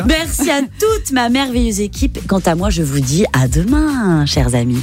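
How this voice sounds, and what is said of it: Put-on Spanish accent. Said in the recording (French): “un petit accent espagnol”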